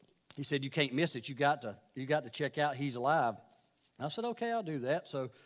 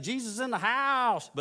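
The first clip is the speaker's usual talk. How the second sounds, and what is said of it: Bad imitation of another person's voice. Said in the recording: “that was a bad imitation,”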